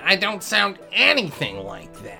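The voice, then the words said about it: Impression of the speaker's grandmother. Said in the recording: “I get to do an impression of my grandmother ... my only minorly exaggerated impression”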